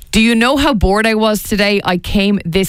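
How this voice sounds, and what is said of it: Flat deadpan reading. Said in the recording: “I'm going to read a deadpan.”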